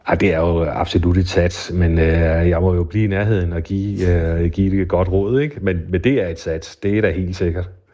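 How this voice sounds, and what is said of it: Funen Danish regional accent. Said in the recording (Danish): “din fynske accent”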